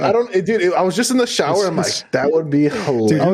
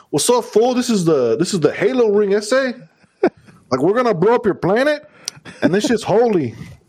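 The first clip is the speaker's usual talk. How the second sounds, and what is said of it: East LA accent. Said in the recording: “the East LA accent”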